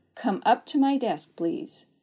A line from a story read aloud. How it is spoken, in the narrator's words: Bates calmly ordered